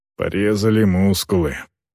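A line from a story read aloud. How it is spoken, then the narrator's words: Muttering. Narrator (Russian): пробормотал он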